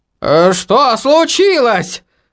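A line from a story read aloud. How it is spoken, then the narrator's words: Stunned, strained words. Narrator (Russian): выдавил Федор Игоревич, ошеломленно глядя в небеса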